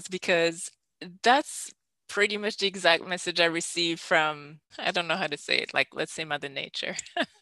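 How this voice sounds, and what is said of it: Emotional, close to tears. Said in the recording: “I'm going to cry ... getting emotional”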